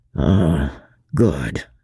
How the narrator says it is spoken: muttered Chauvelin

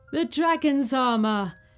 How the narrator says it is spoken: laughed Morian with delight

